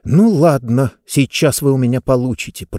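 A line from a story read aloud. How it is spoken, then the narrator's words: Through gritted teeth. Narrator (Russian): процедила Диба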